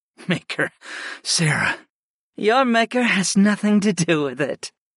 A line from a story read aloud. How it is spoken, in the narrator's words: the dark-haired Arkin laughed lightly